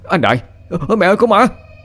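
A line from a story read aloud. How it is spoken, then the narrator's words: Terrified shriek. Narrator (Vietnamese): tôi rú lên kinh hãi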